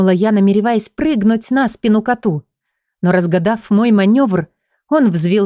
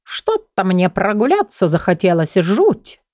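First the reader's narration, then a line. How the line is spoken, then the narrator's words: Offhand with a chuckle. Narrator (Russian): хохотнув, бросил он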